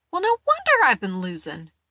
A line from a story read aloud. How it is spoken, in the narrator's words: Maybell exclaimed